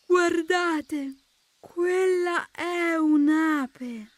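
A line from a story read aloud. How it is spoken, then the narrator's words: Snail exclaiming very slowly. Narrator (Italian): esclamò molto lentamente la lumaca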